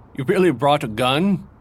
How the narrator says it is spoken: Alexander chuckled

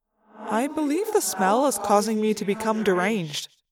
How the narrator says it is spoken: Axe said calmly

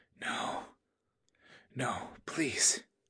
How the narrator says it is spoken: she whispered

